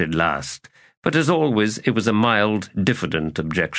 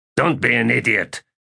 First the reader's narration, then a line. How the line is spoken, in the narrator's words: snapped Sheb